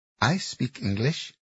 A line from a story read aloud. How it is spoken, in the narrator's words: One of the girls said in a heavy Thai accent